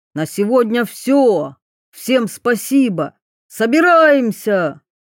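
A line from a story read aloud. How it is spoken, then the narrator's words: Loud shout from outside. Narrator (Russian): Снаружи громкий голос прокричал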